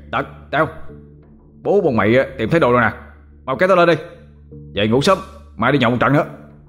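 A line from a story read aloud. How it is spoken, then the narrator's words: Joyful shout. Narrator (Vietnamese): Nó mừng trở hét lên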